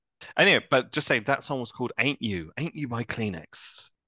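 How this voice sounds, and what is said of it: Radio presenter voice. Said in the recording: “Good radio voice there”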